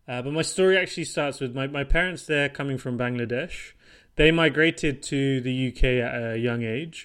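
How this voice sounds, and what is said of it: British English accent. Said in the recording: “as you can hopefully tell by my accent, uh, I'm from the UK originally”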